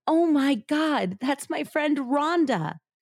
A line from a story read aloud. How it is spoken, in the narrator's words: Judy cried